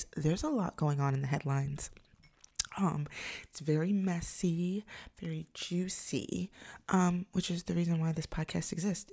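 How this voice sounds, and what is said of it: Whispering, slightly weird-sounding voice. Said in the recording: “I sound a little weird, it's one because I'm whispering ... not yell”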